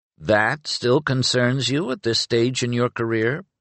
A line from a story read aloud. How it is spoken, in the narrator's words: Penric inquired, entirely too dryly